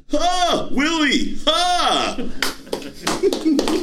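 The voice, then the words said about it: Impression of the TV character Alf. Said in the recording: “your Alf impression”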